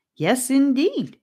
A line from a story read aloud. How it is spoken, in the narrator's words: Rivers answered him cheerfully